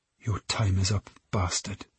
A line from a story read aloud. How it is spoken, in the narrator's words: she whispered to herself